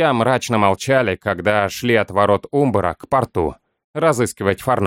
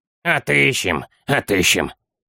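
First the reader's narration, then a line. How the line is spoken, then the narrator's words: Little gnome grumbling, subdued. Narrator (Russian): проворчал маленький гном, однако без обычной бравады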